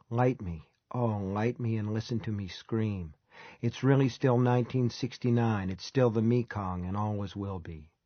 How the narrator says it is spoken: Most of his stiff-shouldered plaster and paper and clay people seem to whisper

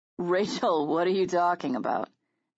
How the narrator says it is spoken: Jonathan laughed uncomfortably

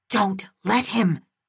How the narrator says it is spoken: Aday whispered

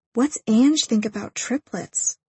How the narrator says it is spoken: I whisper

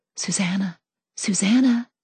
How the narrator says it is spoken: They whispered to each other

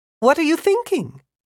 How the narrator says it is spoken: Miss Wirt asked brightly

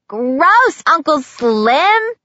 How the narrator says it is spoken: a child's voice shouted

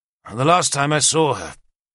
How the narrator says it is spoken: I said bitterly

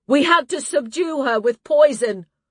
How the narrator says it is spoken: she called out

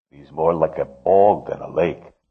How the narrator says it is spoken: Voznesensky grumbled

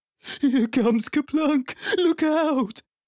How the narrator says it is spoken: Emu cried

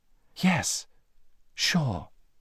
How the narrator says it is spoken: breathed the Snork Maiden

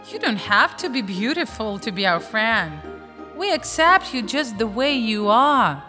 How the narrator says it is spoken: The swan smiled kindly and said

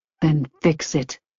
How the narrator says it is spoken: Teddy returned quietly

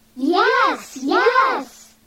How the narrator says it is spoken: shouted the children

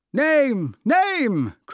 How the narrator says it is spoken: cried the audience

